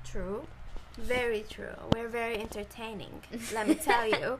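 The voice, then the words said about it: Put-on British accent. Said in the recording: “With the British accent.”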